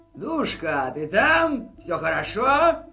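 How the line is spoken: Hoarse shout behind door. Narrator (Russian): закричали за дверью охрипшим голосом

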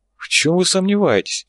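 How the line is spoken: Hopeless sigh. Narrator (Russian): безнадежно вздохнул Чиф

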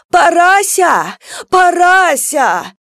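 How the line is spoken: Shouting. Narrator (Russian): кричала Верка

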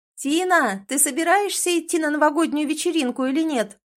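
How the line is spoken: Shouted. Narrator (Russian): прокричала моя лучшая подружка Женя

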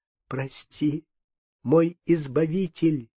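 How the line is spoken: Sobbing. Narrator (Russian): говорила она, всхлипывая

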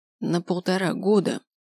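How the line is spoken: Hoarse correction. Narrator (Russian): сипло поправила я

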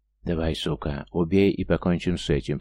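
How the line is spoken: Hoarse rasp. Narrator (Russian): прохрипел Хардвуд

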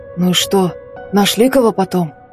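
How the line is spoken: Hoarse question. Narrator (Russian): осипшим голосом спросил Семенов

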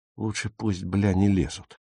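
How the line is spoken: Grumbled. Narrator (Russian): буркнул Отто

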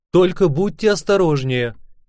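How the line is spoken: Shouted after someone. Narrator (Russian): крикнула она мне вслед

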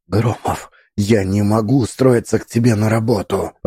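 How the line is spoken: Whisper. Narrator (Russian): прошептала она

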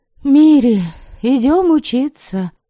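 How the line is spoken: Sighing. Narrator (Russian): вздохнула Лиля

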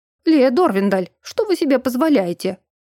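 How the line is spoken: Indignant exclamation. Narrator (Russian): воскликнул, судя по голосу, теперь уже действительно проректор Игибдил, возмущенно

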